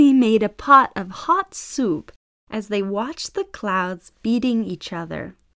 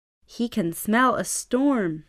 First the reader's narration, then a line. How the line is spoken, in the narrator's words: said Papa